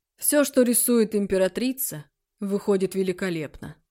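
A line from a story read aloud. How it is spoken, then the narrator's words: Restrained tone. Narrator (Russian): отозвался Шан Юй сдержанным тоном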